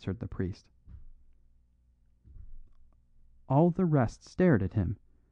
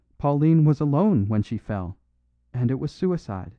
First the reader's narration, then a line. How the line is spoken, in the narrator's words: cried Flambeau